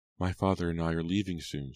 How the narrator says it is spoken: she said quietly

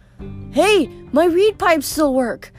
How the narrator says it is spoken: Grover cried

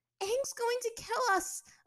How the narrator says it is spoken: Azula cried out, panicked

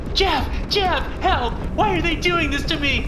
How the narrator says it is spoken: Colette screaming

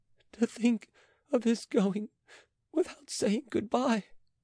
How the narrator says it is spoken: sobbing

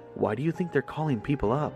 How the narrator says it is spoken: Rob whispered to me, probably questioning

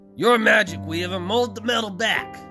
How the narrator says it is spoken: Leslie snarled

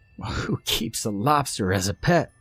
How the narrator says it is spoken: Jordan laughed

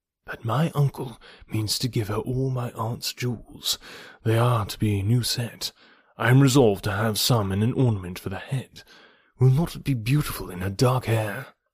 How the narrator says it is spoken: whispering seriously

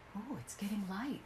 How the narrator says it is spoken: whispered his wife

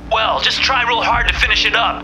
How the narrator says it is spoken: Burns yelled back

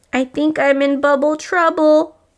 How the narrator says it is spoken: Rubble whimpered

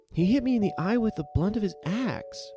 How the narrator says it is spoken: cried

